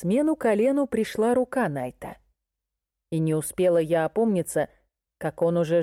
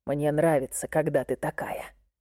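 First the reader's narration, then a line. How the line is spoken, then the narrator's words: Hoarse, aroused voice. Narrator (Russian): сказал он хриплым и возбуждённым голосом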